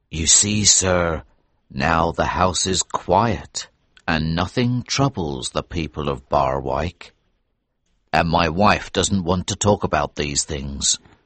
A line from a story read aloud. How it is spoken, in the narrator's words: said in a low voice